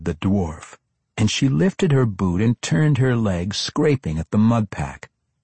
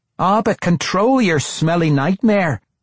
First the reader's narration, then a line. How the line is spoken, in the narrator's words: the dwarf bellowed